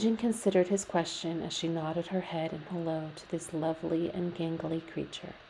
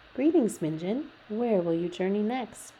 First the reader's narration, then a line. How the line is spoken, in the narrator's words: Jake asked